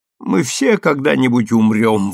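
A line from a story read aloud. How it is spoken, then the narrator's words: Sudden rough outburst. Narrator (Russian): вырывается у нее неожиданно грубо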